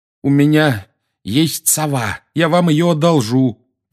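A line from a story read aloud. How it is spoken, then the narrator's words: Strained groan. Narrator (Russian): простонал Гарри, думая, что позвоночник вот-вот треснет под тяжестью Дадли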